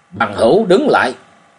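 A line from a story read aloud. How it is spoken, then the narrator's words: Sudden shout from nearby. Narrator (Vietnamese): đột nhiên, tại một nơi không xa bên trái vang lên tiếng quát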